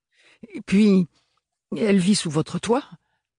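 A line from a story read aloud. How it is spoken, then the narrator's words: Stammering. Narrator (French): bafouilla-t-elle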